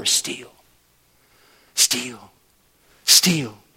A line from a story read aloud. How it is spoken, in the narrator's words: he keeps on whispering in our ears over and over